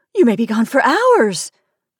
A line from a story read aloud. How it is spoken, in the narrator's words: I cried, in an excess of panic